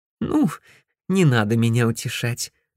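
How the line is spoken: Laughing. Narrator (Russian): засмеялась Мияка

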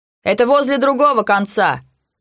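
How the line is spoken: Dog handler shouting. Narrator (Russian): крикнул кинолог

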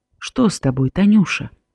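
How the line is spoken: Quiet concerned father asking. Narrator (Belarusian): Маеўскі заўважыў схваляванасць дачкі і ціха спытаў

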